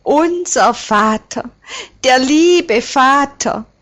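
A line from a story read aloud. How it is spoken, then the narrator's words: Choked cry. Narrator (German): ruft wie erstickt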